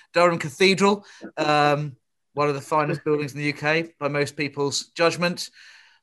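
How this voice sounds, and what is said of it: Liverpool accent. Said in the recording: “the Cunard Building in Liverpool, my father's home city, as you can tell from my accent”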